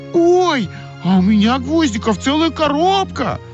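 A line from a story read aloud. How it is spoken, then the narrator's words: Shouting. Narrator (Russian): закричала Ойка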